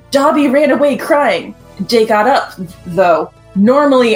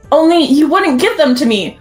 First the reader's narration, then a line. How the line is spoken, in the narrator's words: Lumpkin shouted angrily